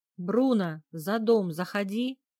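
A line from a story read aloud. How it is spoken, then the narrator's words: Loud booming shout. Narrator (Russian): прокричали в ответ зычным голосом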